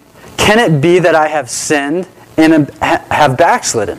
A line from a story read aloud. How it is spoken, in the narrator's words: So alarmed, he exclaimed